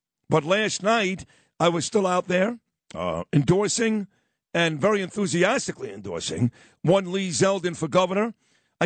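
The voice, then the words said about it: Voice sounds unwell, not full strength. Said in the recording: “I don't feel all that great today, and you can tell my voice is not great ... you can tell my voice, not 100%”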